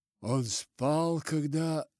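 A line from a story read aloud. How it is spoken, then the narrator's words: Hollow, muffled question. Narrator (Russian): мог только спросить глухим голосом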